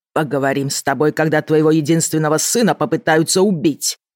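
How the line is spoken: Roaring father. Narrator (Russian): взревел отец

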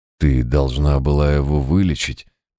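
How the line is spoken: Lost, dazed mutter. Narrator (Russian): потерянно пробормотал читер

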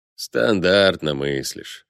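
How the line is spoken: Sighing. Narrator (Russian): вздохнул Быков

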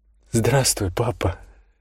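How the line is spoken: Whisper. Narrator (Russian): прошептала она

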